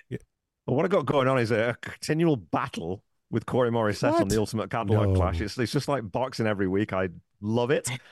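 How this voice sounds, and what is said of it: Mixed, inconsistent accent. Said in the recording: “I love your accent. ... It's fake. ... My accent's a train wreck. ... My accent's all over the place.”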